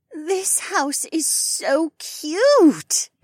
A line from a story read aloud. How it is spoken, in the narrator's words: Becca groaned